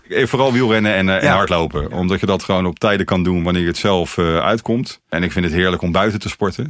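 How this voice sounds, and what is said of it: Strong Rotterdam Dutch accent. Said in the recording (Dutch): “ik hoor toch een heel sterk Rotterdamse accent”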